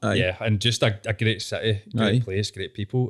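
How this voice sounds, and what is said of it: Scottish accent. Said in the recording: “you've got a Scottish accent.”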